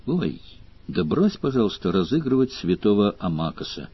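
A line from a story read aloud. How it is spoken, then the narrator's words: Quiet. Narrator (Russian): тихо сказала Мара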